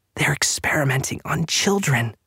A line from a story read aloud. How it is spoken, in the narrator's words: Clark finally said, her voice barely a whisper